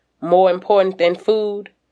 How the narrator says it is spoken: I snort

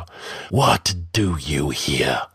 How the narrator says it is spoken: his hiss was like the voice of a cobra

